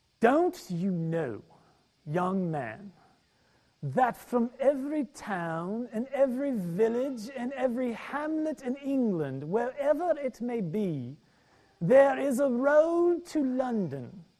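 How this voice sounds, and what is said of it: Mixed British, Irish, Southern accent. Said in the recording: “in my best British, Irish, Southern redneck accent”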